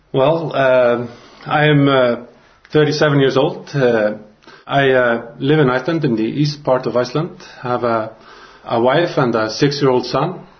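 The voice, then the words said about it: Icelandic-accented English. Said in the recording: “you have that nice accent.”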